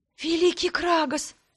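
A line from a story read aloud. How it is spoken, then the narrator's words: Whisper. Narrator (Russian): прошептала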